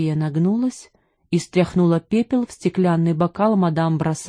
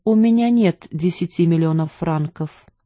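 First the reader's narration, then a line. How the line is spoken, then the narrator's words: Calm. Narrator (Russian): спокойно сказала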